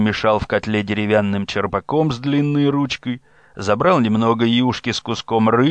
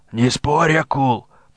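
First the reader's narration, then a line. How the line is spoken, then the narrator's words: Hoarse wheeze. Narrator (Russian): прохрипел Корчига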